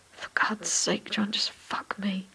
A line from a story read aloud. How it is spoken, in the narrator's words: Ocelot growls